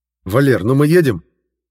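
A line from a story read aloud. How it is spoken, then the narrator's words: Indignant bark from car. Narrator (Russian): возмущенно гаркнул Жендос из машины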